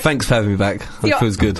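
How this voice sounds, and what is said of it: Posh upper-class radio voice. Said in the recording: “I love your posh radio voice ... Totally upper class now that you're on the radio”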